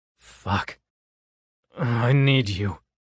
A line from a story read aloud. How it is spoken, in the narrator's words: I groan